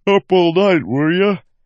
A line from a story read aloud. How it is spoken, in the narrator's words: Wayne asked with a yawn